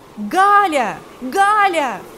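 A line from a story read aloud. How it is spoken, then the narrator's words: Shouted. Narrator (Russian): закричал он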